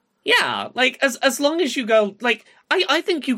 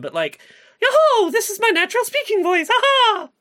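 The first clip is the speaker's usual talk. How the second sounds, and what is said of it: Imitates a cartoon mouse character voice. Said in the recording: “you could even get quite close to the Mickey voice ... I have a legally distinct voice”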